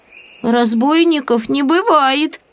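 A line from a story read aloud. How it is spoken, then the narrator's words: Squeaked. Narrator (Russian): пискнул Прутик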